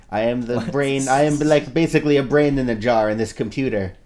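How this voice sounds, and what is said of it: Weird character voice. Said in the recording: “my voice is so weird”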